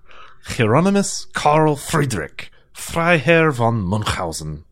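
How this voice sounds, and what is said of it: Questionable put-on German accent. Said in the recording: “pronounce his name in your fine German accent? ... my highly questionable German accent.”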